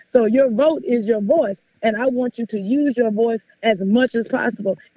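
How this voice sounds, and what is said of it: Slightly hoarse voice. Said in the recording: “I'm a little bit hoarse right now, not because I have COVID, but because I've been talking a whole lot”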